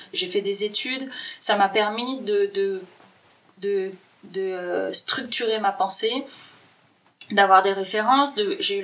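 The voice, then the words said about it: Accent from France. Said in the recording (French): “ça s'entend certainement à mon accent, je viens de France”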